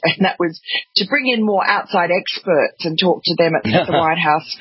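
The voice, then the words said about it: Australian accent. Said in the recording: “that wonderful accent of yours, Australian, obviously”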